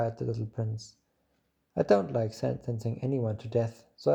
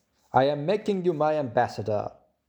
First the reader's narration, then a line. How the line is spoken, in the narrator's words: the king shouted hastily after him